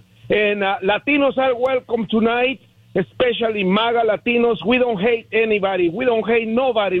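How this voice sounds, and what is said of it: Heavy foreign accent. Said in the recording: “I have a beautiful heavy accent like Arnold Schwarzenegger”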